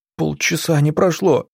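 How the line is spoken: Sobbing. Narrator (Russian): всхлипнула Аглая

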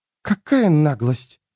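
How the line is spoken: Indignant exhale. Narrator (Russian): выдохнула, увидев этих двоих

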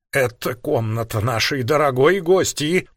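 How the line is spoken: Barely audible zombie rasp. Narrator (Russian): прохрипела едва различима женщина-зомби

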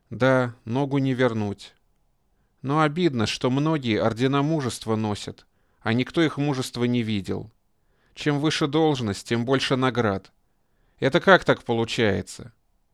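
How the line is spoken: Sighing. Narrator (Russian): Деденец вздохнул

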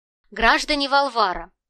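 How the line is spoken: Loud address. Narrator (Russian): громко произнес он

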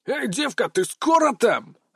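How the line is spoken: Bark. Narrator (Russian): рявкнул

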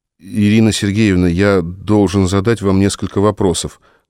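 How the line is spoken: Embarrassed mumble. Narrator (Russian): промямлил Мишаня, не зная, куда девать глаза

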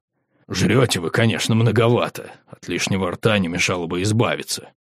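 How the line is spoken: Mutter. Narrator (Russian): Угрх пробормотал

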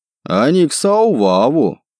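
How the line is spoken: Loud repetition. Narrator (Russian): громко повторил бородач

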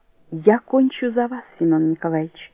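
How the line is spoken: Quiet. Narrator (Russian): тихо говорит она

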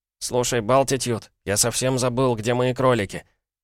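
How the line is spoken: Angry grumbling. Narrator (Russian): заставила Пола сердито проворчать

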